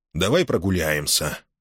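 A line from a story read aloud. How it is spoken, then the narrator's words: Grumbling through loudspeaker. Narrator (Russian): проворчал его громкоговоритель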